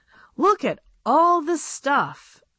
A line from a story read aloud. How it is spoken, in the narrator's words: exclaimed Bobby